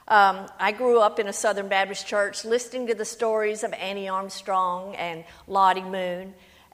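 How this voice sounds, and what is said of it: Southern US accent. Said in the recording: “I am from Louisiana. That is the accent. It's a lot like yours, from Alabama.”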